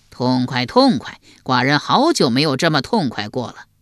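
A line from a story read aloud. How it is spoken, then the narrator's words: Roaring laughter. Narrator (Chinese): 齐桓公又大笑，笑得前仰后合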